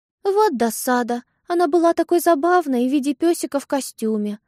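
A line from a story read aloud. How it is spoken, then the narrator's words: Young woman sighing. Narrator (Russian): вздохнула его юная спутница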